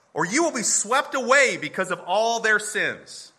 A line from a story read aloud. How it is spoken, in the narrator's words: He's yelling